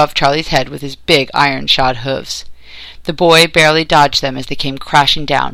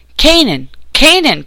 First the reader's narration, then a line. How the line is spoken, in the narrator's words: cried Jerusha Brent from the other bank 30 feet away